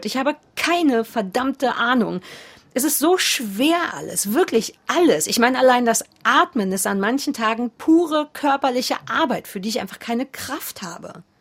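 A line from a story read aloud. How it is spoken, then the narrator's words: Blustering. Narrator (German): poltert Kurt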